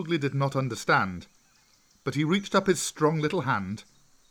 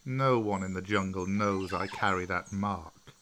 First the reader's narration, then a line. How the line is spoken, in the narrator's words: Bagheera said